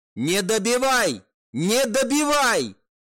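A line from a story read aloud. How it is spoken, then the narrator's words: Shouting. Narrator (Russian): прокричать Лин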